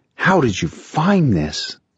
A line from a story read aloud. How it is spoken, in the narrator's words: he breathed